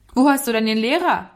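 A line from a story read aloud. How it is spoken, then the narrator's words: Calling out while trotting. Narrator (German): rief er ihm zu, während er ihm entgegentrabte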